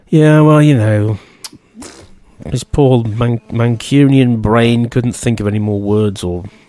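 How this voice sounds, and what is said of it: Poor put-on Manchester accent. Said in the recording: “that's the worst Manchester accent.”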